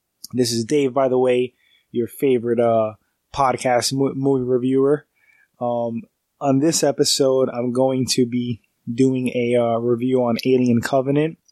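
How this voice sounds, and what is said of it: Congested, stuffy-sounding voice. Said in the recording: “I sound a little congested, a little stuffy. I'm getting over a cold. I also have allergies.”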